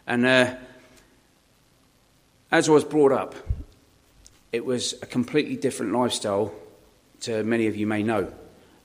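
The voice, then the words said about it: Brogue accent. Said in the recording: “hence my brogue, I'd speak like this”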